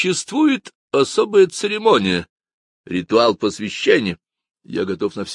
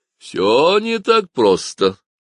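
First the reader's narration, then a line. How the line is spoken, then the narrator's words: Laughing. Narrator (Russian): рассмеялся Даймонд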